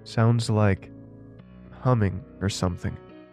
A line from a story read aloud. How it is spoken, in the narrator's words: I replied